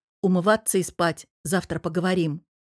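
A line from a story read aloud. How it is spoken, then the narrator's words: Stern command. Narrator (Russian): Мирон строго скомандовал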